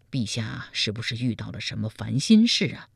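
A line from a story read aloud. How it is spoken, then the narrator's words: Concerned question. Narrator (Chinese): 赵普关切地问道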